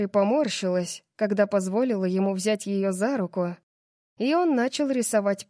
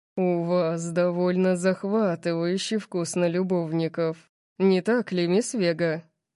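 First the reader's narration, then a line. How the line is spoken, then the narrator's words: Seductive purr. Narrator (Russian): Он соблазнительно замурлыкал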